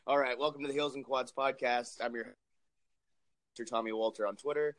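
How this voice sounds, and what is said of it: Slightly hoarse voice. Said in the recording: “excuse my voice. I'm still a little hoarse”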